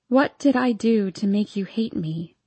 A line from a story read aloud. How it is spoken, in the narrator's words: I ask, trying to keep my voice down so Karen doesn't hear me